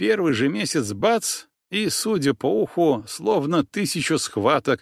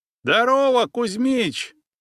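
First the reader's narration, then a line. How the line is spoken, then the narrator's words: Man shouting. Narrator (Russian): прокричал выходящий из ворот мужичок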